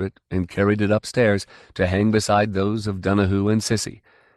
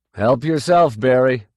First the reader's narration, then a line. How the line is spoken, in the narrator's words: he called out